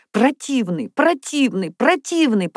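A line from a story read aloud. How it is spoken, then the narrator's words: Sobbing. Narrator (Russian): повторяла она сквозь рыдание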